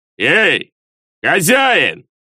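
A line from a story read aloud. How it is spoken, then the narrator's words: Booming big man. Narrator (Russian): крикнул зычным громким голосом здоровенный мужик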